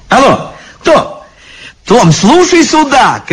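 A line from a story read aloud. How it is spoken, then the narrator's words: Shouting into phone. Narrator (Russian): кричала в трубку библиотекарша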